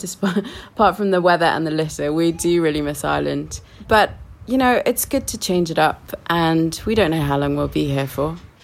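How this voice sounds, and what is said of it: British accent with New Zealand tinge. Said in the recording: “my accent is kind of a bit weird and, you know, odd ... of course you're British ... maybe that's a New Zealand accent”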